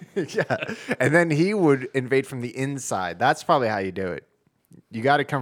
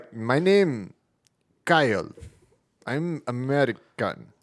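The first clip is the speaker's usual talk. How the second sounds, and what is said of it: Mock Russian accent. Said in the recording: “How do you get a Russian accent?”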